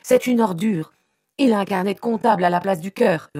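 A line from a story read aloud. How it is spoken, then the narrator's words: Yelled. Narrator (French): hurla-t-il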